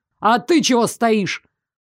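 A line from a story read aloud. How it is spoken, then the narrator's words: Bark. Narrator (Russian): рявкнул учитель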